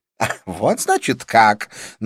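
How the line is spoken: Mocking snort. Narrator (Russian): насмешливо фыркнула

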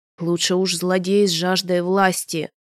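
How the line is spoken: Groaning. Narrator (Russian): простонал Вель

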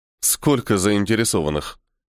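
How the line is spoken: Snort. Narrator (Russian): хмыкнул я

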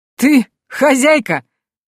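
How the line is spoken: Loud laughter. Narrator (Russian): бородач захохотал

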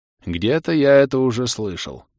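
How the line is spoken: Sighing. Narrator (Russian): вздохнул Адрус

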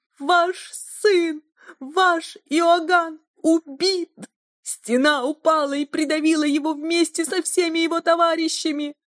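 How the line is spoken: Shouting. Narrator (Russian): так кричала служанка

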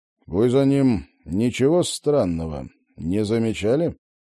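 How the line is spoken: Trying to sound confident, menacing. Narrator (Russian): Роджер старался держаться уверенно и грозно

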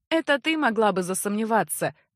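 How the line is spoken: Open laughter. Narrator (Russian): откровенно засмеялся Эгрис

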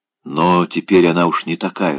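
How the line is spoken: Whispering. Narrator (Russian): шептал

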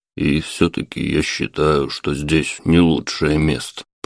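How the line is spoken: Muttering man. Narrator (Russian): пробормотал мужчина

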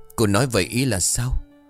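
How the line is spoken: Lowered, puzzled voice. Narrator (Vietnamese): Ông Lang nhíu mày rồi hạ giọng

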